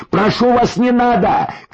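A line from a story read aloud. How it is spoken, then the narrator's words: Shouted. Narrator (Russian): крикнул следом Бич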